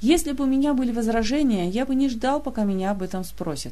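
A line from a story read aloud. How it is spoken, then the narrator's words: Snapped. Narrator (Russian): огрызнулся Диего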